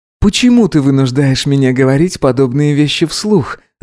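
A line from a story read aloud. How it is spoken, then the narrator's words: Laughing. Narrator (Russian): засмеялся Гидеон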